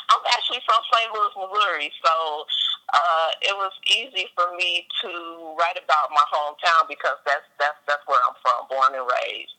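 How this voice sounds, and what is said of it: Noticeable regional accent. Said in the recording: “I hear accent, so I'm trying to pick it up.”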